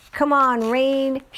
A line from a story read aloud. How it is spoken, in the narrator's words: shouted